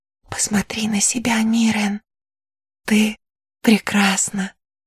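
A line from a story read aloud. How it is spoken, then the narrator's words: Whisper. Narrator (Russian): прошептала Кристина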